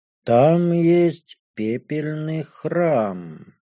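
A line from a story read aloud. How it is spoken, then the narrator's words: Thoughtful drawl. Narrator (Russian): задумчиво протянула драколюдка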